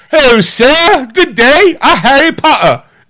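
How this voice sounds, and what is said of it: Weak put-on British accent. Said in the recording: “Can you do a British accent? ... We'll work on it. We'll get you the dialect code.”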